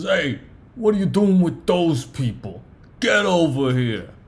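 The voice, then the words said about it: Hard Brooklyn gangster accent. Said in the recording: “speaks with, like, a hard Brooklyn accent, and, like, it was an extra that had a scene in Goodfellas”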